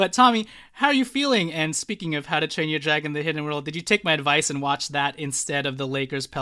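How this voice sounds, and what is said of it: Usual voice. Nothing is said of it.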